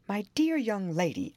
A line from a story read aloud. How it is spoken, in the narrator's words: exclaimed